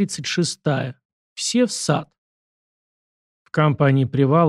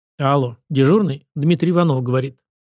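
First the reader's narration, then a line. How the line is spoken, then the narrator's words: Firm official voice. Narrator (Russian): сказал жандарм твердым голосом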